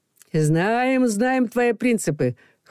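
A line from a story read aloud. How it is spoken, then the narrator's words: Chorus with good-natured laughter. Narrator (Russian): хором произнесли Макар, Костя и Людмила, а она при этом еще и добродушно засмеялась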